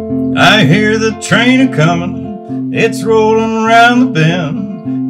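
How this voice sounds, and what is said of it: Sings imitating another person's voice. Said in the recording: “I'm trying to impersonate Johnny Cash”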